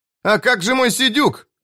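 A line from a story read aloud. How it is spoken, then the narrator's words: Shouting. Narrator (Russian): закричал Том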